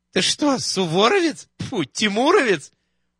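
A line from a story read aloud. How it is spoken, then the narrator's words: Laughing. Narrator (Russian): Уборщица рассмеялась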